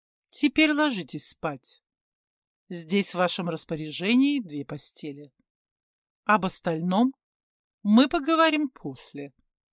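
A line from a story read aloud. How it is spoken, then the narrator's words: Plain. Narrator (Russian): сказала Менхотеп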